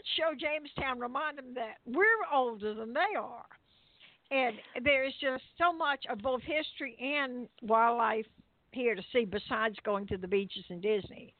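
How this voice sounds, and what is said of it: Warm Southern American accent. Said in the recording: “you've got the southern coolness going on. I should say coolness, the warmth of it. You hear everyone listen to ... accent”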